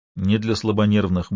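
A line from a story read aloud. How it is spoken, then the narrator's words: Muffled grumble. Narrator (Russian): буркнул Хорхе из-под стола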